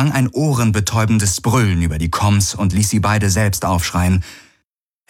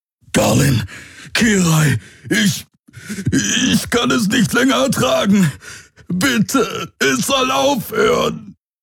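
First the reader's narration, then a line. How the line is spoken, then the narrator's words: Roaring. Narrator (German): Wieder brüllte er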